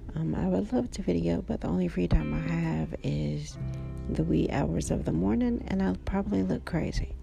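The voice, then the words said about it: Slightly scratchy voice. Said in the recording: “it's late at night and my voice is a little scratchy”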